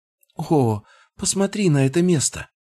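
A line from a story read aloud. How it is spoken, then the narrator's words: Exclaimed. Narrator (Russian): воскликнула Фенрис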